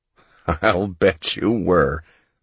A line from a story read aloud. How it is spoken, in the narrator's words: Mellis said and laughed